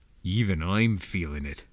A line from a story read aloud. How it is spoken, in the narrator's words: Beezer muttered